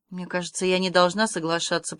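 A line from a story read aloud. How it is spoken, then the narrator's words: Female muttering. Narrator (Russian): пробормотала Аня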